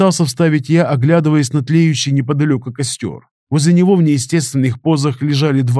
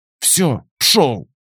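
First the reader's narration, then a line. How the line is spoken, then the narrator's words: Forced through gritted teeth. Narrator (Russian): Сквозь зубы выдавила байкерша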